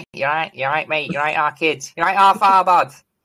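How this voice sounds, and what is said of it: Put-on Manchester accent. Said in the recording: “the proper Manc is horrible”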